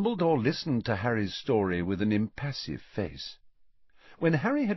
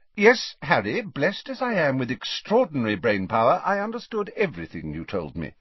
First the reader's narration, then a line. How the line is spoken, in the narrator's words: said Dumbledore a little sharply